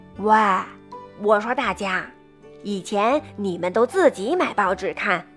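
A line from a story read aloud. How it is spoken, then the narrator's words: Sighing, wistful. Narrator (Chinese): 鳄鱼先生感叹着说道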